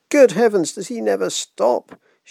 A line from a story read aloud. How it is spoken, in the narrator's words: sighed